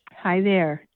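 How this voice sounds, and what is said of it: Sexy, smooth radio voice. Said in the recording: “I wasn't trying to make that sound sexy... you kind of do have a really good like radio voice”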